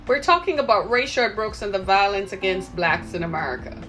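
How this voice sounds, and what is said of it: Caribbean accent. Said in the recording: “you sound as if you have an accent... I'm from the Caribbean”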